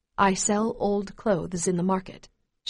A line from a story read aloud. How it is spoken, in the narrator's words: she says in a barely audible voice